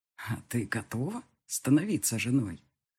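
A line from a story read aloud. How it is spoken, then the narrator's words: Husky sleepy question. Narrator (Russian): спросил он с хрипотцой в голосе после сна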